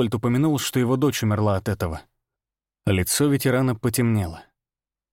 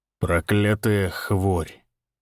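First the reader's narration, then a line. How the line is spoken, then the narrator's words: Gloomy. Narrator (Russian): мрачно произнес он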